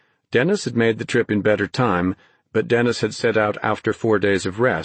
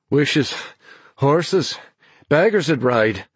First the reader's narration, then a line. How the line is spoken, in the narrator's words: he panted back, grinning in spite of his own weariness